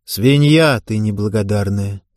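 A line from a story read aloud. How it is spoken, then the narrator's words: Calm, curt mother. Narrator (Russian): спокойно отрезала мать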